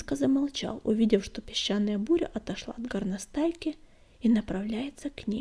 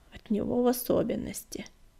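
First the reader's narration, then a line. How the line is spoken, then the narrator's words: Gloomy confirmation. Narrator (Russian): мрачно подтвердил Огнегрив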